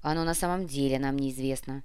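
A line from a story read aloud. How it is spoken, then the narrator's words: Grumbled. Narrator (Russian): проворчал заместитель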